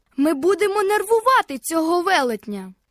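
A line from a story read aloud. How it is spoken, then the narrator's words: Shouted. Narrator (Ukrainian): крикнув він Фіппі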